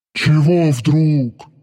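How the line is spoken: Surprised. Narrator (Russian): удивился Дармат

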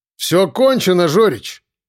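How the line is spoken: Loud. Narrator (Russian): громко проговорил я

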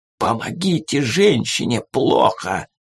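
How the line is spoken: Hissed, American man. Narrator (Russian): прошипел американец

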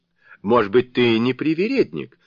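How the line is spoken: Laughing group of maidens. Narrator (Russian): засмеялись остальные девы

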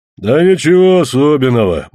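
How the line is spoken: Official's deep bass. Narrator (Russian): басил исправник

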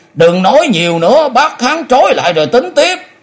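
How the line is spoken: Loud shout. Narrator (Vietnamese): cũng quát lớn

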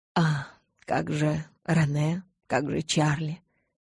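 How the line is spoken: Sigh. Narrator (Russian): Я вздохнула

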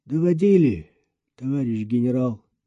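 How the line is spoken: Flat colorless voice. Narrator (Russian): бесцветным голосом подтвердил Андрей

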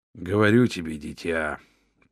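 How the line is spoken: Old man mumbling around pipe. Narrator (Russian): пробормотал старый Хаттер, не вынимая трубку изо рта

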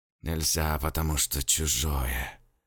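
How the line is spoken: Man's loud muttered whisper. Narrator (Russian): снизив голос до громкого шепота, бормотал мужик

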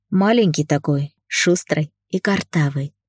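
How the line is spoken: Smiling, tender, muffled. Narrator (Russian): улыбнулся я, утыкаясь губами в лоб девчонки

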